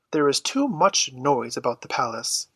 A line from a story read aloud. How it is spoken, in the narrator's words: she observed in a displeased tone